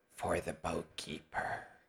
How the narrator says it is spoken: And you hear him whisper

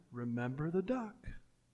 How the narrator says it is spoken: Jenny whispered again

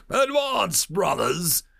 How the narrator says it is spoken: Daxon roared out

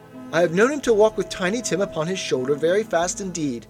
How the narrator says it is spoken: she said, in a steady, cheerful voice, that only faltered once

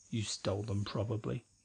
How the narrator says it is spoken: Larry murmured to himself

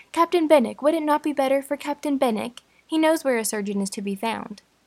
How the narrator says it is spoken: Anne eagerly suggested

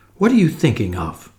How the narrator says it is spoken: said Jane sharply

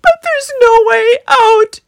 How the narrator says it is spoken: they cried

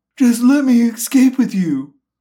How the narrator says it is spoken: the man pleaded

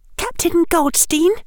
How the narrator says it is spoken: she said, and her voice trembled only a little

